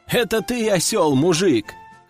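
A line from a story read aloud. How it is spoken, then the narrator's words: Chuckling. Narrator (Russian): хохотнул я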